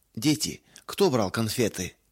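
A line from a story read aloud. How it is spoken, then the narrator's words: Sad question. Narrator (Russian): Тетя Лиза печально спросила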